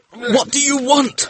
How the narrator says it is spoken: he gasped

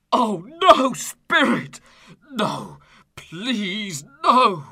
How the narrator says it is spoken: cries desperately

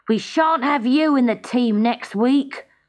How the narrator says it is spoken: grumbled his classmates

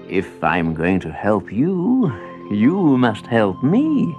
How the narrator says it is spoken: he said

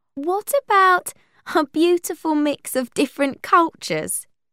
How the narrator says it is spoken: asked Willow with a laugh

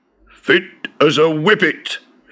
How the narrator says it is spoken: exclaimed

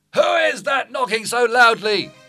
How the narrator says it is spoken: The merchant, still impersonating Vincentio, looked out of an upstairs window and shouted

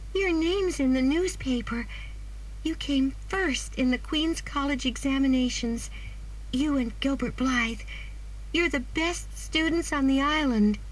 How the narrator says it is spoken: she cried excitedly

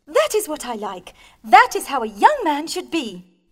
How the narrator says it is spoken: cried Marianne with admiration

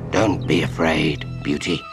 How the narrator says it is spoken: he murmured, trying to keep the growl out of his voice

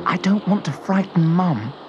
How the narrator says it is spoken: whispered Astra

